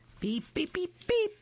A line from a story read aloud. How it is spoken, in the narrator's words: laughed Max